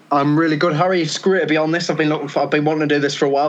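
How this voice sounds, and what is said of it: Geordie accent. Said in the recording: “Someone with a Geordie accent. ... it's good to have a Geordie accent.”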